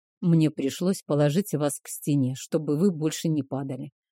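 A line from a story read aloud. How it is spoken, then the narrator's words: Sleepy mumble. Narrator (Russian): пробормотал он, не открывая глаз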